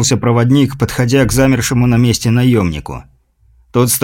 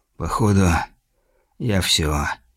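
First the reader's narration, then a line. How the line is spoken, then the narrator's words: Quiet. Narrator (Russian): тихо сказал он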